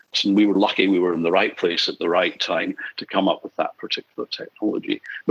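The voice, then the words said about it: Non-Australian accent. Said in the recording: “as people would have picked up from your accent, you're not a born and bred Australian”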